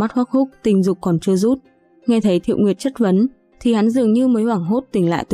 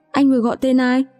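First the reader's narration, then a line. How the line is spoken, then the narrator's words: Trembling frightened question. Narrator (Vietnamese): Khuôn mặt hồng nhuận của Thiệu Nguyệt nháy mắt lên trắng bệch, run rẩy hỏi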